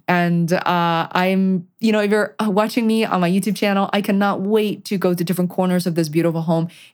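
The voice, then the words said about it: Excited, happy voice. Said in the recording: “I hope you can tell from my voice, I am over the moon.”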